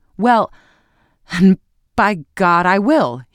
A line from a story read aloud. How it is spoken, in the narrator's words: he exclaimed